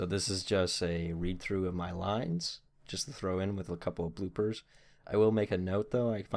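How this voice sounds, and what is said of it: Usual voice. Nothing is said of it.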